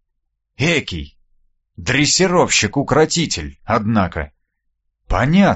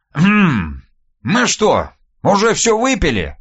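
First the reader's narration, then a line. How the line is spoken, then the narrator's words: Casual surprise. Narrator (Russian): Мимоходом удивился Никита Силыч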